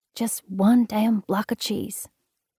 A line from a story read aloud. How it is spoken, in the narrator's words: Winnie scratched out in a whisper